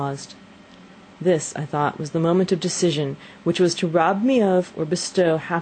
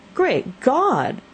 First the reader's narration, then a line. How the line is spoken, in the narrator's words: exclaimed the old man